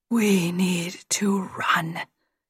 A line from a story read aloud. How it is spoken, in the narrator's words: whispered in his ear